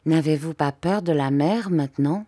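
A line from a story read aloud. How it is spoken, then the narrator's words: Timid little girl. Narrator (French): la petite Émilie se sentit le courage de me dire, bien timidement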